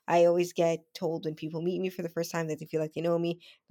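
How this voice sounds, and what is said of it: Strong Spanish accent. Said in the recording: “I don't know what's going on with my accents today. Like, the Spanish accent is pungent.”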